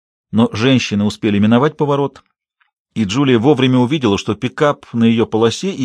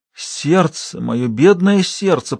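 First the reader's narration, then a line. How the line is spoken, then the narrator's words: Moan. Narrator (Russian): простонала она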